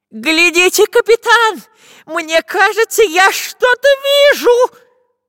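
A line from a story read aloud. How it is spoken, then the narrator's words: Sudden loud shout. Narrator (Russian): Вдруг во весь голос закричал шпион Дырка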